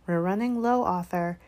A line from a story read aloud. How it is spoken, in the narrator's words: she sighed